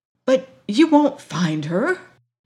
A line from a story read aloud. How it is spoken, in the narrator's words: gasped the doctor